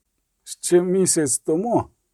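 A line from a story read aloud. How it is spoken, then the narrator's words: Groaning. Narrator (Ukrainian): стогнав за його спиною Кагір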